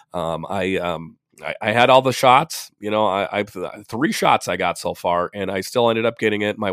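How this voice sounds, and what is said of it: Congested, winded, slightly off voice. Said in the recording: “my voice is a little off ... a little winded and, you know, a congestion. You can tell my voice is all messed up ... quite a bit of congestion. You can hear it in my voice, and I am a bit more winded”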